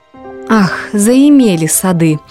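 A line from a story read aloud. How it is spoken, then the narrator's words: Laughing. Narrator (Russian): засмеялась Патимат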